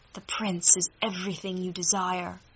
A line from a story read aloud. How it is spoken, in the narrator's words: she whispered